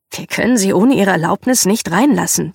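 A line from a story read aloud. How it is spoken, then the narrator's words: Plain. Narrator (German): sagte er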